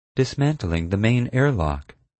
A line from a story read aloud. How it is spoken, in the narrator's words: computer replied calmly